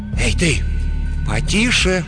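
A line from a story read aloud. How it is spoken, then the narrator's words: Persuasive voice. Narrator (Russian): убедительным голосом произнесла Шан Юн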